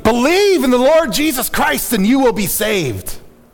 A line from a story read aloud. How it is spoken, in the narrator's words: Harper called out to him, shouting